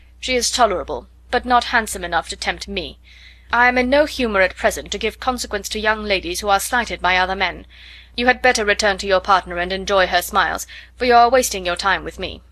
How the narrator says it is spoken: coldly said

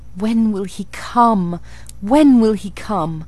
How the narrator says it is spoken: I cried inwardly

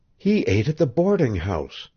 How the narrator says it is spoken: she whispered

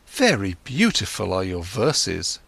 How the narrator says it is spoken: exclaimed Kamala

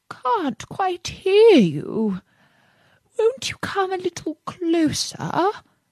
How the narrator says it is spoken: said the fox in a feeble voice

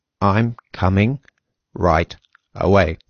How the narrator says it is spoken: said Gregor slowly and deliberately

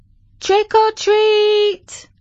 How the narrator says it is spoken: the kids screamed

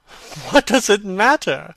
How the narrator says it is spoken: cried Dorian, laughing

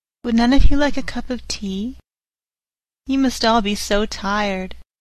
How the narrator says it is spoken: said sweetly

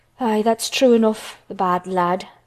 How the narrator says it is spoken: sighed Martha

